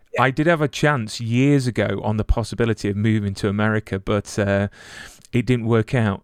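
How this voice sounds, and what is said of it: Non-American accent. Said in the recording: “you sound a little different than we do out here in Los Angeles”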